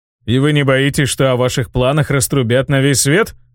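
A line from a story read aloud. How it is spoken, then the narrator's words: Snort, then question. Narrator (Russian): хмыкнув, спросил Иэн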